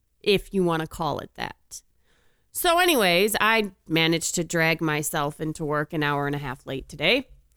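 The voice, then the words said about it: Sick-sounding voice. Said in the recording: “As you can hear from my voice, I now have the death plague.”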